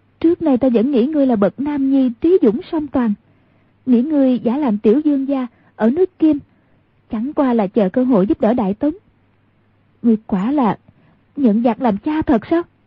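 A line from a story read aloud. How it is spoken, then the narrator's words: Choked, furious voice. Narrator (Vietnamese): giọng nói của nàng thay đổi hẳn, cổ họng nghẹn ngào, rõ ràng vô cùng tức giận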